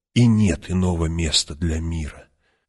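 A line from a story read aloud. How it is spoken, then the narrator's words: Whisper. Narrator (Russian): прошептал он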